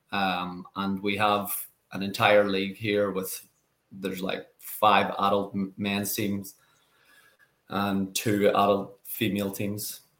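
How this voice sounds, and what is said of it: Speaks with an Irish accent. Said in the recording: “How many people in your gym sound like you, have your accent?”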